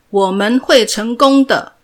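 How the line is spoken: Group shouting together. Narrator (Chinese): 大家一起喊着

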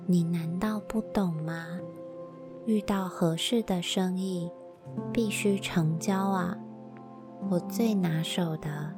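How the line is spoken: Hoarse excited voice. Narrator (Chinese): 麦德克先生 按耐不住兴奋，嘶哑着嗓音说道

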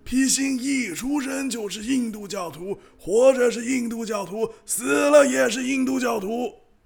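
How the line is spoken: Master shouting. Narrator (Chinese): 师尊喊道

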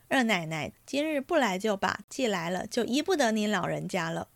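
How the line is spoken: Laughing women. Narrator (Chinese): 几个媳妇们先笑道

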